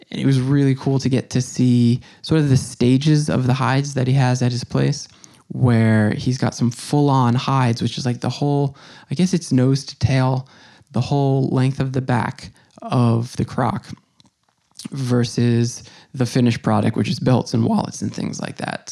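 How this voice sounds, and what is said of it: Strained, failing voice. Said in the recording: “my voice is going here a little bit, so sorry that I sound a little weird”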